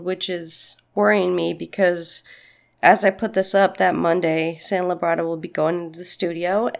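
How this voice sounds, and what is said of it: Slightly congested voice from a cold. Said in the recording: “I don't know if you can hear it in my voice, but I have a little bit of a cold”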